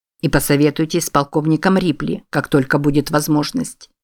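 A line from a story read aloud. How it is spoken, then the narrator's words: Plain. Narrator (Russian): сказал президент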